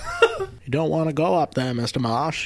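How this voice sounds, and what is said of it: Bad fake Maine accent. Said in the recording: “You sound like the guy in Pet Sematary... That's the worst fake accent.”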